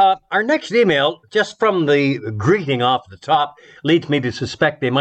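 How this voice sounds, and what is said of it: Usual voice. Nothing is said of it.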